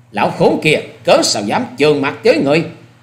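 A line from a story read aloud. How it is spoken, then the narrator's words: Furious loud shout. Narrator (Vietnamese): Ta Trinh Trinh lúc ấy giận xông lên rồi quát lớn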